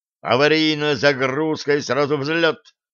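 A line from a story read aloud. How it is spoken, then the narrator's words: Barked. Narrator (Russian): рявкнул Пит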